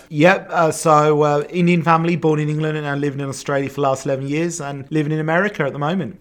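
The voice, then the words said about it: Mixed English and Australian accent. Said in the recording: “you got both an English and Australian accent ... I'm pretty mixed”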